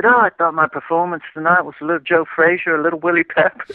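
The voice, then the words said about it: Imitated accent of another person. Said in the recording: “I love that accent. That was great. ... I can do a little Ricky Hatton”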